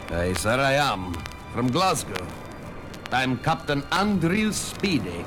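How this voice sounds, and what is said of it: Scottish accent. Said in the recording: “from your accent, you're a Scotsman.”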